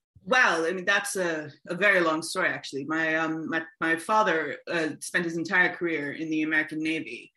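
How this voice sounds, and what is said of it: American accent. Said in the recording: “clearly we can hear the American accent”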